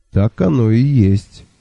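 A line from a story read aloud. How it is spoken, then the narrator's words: Calm agreement. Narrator (Russian): спокойно согласился Лонли Локли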